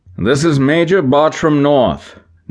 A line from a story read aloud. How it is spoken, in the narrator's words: North called out